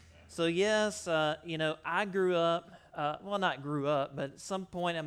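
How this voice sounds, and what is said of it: Usual voice. Nothing is said of it.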